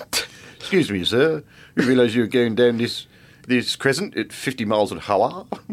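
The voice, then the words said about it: Put-on British policeman accent. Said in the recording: “my policeman is now speaking in a British accent”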